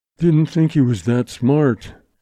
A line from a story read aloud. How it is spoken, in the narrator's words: Lawson told himself gloomily